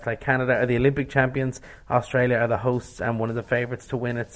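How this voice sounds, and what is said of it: Australian accent with a twang. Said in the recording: “I'm mesmerised by your Australian accent ... you have a lovely twang in your voice from down under”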